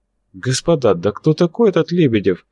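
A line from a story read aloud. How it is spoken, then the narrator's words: Innocent questioning tone. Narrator (Russian): самым невинным тоном, полагавшимся на его взгляд новичку, спросил Ростислав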